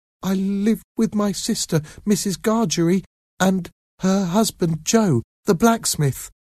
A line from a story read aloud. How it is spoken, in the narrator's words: Pip answered in a frightened voice